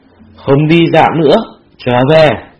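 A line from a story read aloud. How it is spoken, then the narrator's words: Angry speech. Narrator (Vietnamese): Cẩu Mộ Quân tức giận, tức giận nói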